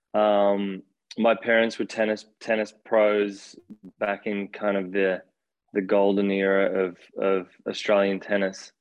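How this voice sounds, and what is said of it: Australian accent. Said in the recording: “I grew up in Australia. You could probably hear from my funny accent.”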